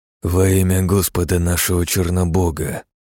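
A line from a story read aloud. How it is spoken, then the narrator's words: Whispered. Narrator (Russian): прошептал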